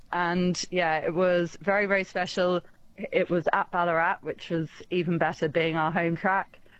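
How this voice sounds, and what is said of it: English accent. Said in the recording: “given you mentioned your accent... rather than in the UK”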